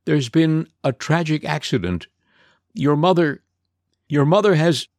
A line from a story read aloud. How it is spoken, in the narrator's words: he began, his voice faltering